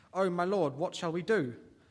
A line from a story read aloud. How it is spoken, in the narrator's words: the servant asked